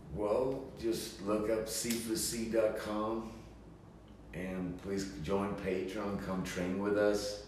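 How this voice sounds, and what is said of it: Swedish accent. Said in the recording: “With that Swedish accent”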